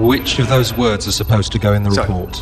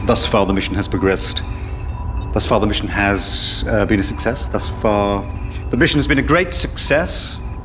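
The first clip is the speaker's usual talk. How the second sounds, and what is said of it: Formal dictating voice. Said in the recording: “my dictating voice”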